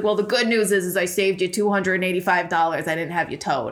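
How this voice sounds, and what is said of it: Put-on Worcester accent. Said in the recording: “That was my Worcester accent ... impression”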